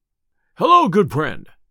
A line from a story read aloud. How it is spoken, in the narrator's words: cried Robin